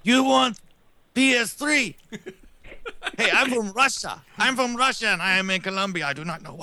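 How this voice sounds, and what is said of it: Bad put-on Russian-Colombian accent. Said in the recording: “That's the worst Russian/Colombian accent I've ever heard in my life.”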